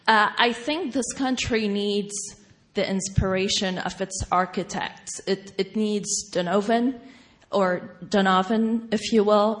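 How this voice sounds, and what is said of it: Non-native English accent. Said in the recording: “English is my third language, so pardon my accent.”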